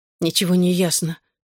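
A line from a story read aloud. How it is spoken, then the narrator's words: Hoarse objection. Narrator (Russian): хрипло возразила она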